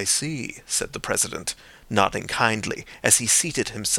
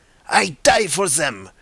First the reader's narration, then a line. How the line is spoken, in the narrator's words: cried the Pole in thick excitement